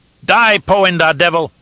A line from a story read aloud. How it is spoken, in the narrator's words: one of the Tleilaxu screeched